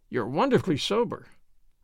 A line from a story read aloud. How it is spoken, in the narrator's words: said